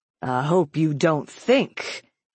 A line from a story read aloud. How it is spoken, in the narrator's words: he said in a lofty, indignant tone